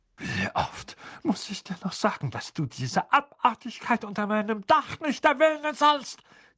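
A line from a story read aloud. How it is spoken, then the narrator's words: Furious hiss. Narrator (German): zischte er, das Gesicht von der Farbe einer reifen Pflaume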